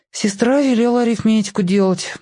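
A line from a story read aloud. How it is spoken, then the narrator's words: Perfunctory sigh. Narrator (Russian): вздохнул я для порядка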